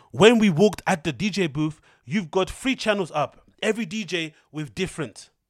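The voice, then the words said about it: Put-on unidentified accent reading message. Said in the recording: “I don't know what accent I'm going for there”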